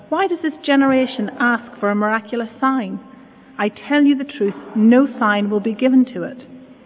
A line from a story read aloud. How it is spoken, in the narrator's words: He sighed deeply and said